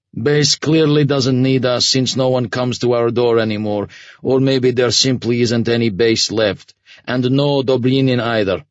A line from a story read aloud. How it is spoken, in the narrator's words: the commander said flatly